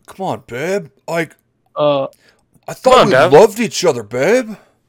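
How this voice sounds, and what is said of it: Put-on "Chad" dudebro voice. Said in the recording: “I put on the Chad voice ... You know the Chad voice that I do?”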